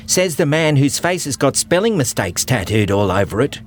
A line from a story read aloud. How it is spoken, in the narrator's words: cried Funnelweb